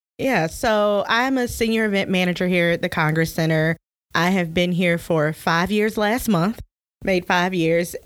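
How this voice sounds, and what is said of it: Southern Alabama country accent. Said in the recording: “we're both from Alabama, and this may be a little country for our listeners ... our Alabama accents ... The accent will get much worse.”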